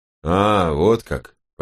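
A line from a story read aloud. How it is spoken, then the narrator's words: Drawling. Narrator (Russian): протянул левый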